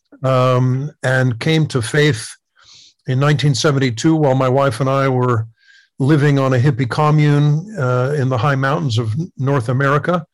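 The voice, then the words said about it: American English accent. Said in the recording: “from my accent, you will readily identify that I was born in the United States”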